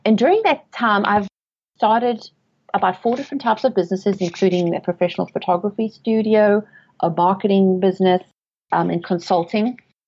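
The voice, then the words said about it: South African accent. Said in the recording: “As you can tell from my accent, I'm not from around here. I was born and raised in South Africa, and I've lived in England”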